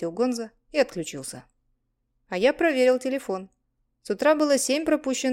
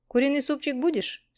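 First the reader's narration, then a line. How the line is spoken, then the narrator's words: Plain question. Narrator (Russian): спросил я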